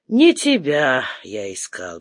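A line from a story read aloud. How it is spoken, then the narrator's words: Sighing. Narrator (Russian): вздохнул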